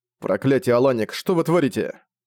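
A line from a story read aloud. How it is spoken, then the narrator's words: Barked. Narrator (Russian): рявкнул Зориан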